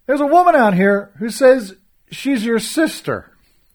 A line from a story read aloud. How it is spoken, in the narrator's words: I called out